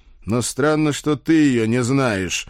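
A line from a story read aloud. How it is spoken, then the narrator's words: Barking. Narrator (Russian): рявкнул я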